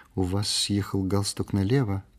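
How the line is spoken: Remarked quietly. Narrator (Russian): тихо заметила она

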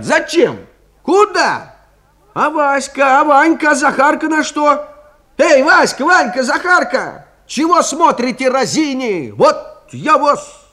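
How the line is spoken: Several voices shouting. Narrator (Russian): отец и мать, да три тетки в пять голосов и закричат

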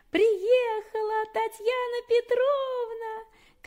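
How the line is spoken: Piercing shout. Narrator (Russian): Марусю, которая выбежала на двор и закричала пронзительно

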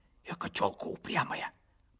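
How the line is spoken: Old woman's grieved whisper. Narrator (Russian): прошептала сокрушённо старушка

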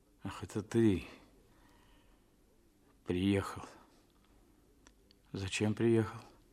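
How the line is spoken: Dazed muttering. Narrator (Russian): бормотал, приходя в себя

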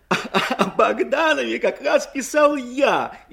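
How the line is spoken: Laughing even harder. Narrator (Russian): еще пуще хохотал Ленин

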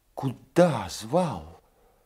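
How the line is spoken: Timid question. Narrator (Russian): робко спросила Соня

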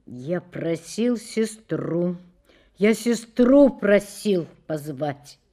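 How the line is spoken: Hollow, flat voice. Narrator (Russian): пустым голосом выговорил

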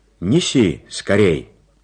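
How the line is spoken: Shouted after someone. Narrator (Russian): крикнул он вслед малышу

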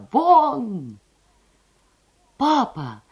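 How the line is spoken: Cry out. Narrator (Russian): вскрикнула Лиза

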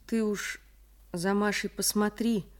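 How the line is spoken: Sad request. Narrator (Russian): попросил Михаил грустно

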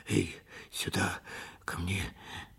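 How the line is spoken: Sleepy groaning mumble. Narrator (Russian): застонал во сне

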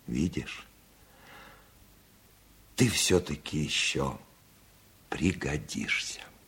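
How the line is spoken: Sighing speech. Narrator (Russian): Вздохнул и сказал

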